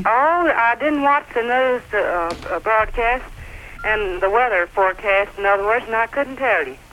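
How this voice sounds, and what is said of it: Warm Southern US accent. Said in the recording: “a real Southern accent ... Sounds nice and warm.”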